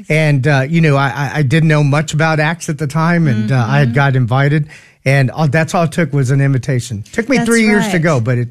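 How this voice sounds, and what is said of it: Slightly hoarse voice. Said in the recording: “my throat's a little hoarse.”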